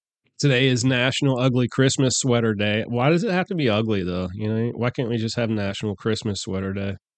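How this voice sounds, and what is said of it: Congested, stuffy-nosed voice. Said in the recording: “I sound a little congested, that's because I am. I'm coming off a massive cold.”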